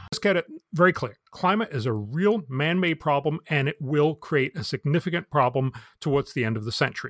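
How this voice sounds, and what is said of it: Slight northern accent. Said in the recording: “he's got the slightest northern accent”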